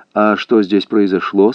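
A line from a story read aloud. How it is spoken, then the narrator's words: Plain. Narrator (Russian): спросил он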